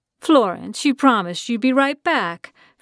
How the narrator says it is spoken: Franny called cheerfully from her ladder

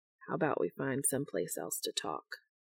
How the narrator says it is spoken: He whispers into Dean's ear

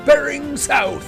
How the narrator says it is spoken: shouted Mad-Eye

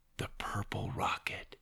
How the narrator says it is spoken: he whispered

